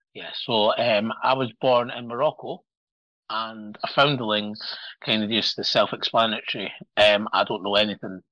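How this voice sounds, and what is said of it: Scottish accent. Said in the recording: “He is from Scotland, so you're going to hear this great accent ... I sound Scottish”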